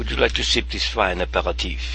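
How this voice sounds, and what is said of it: Put-on French accent. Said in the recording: “Your command of French is just amazing, and your accent.”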